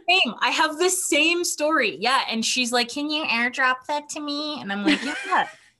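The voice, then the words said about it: Michigan accent. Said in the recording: “Michigan accent”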